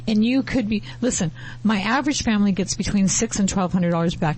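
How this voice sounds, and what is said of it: Voice that is giving out. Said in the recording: “I know you're losing your voice”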